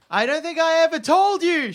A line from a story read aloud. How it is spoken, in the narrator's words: she yells over the howling wind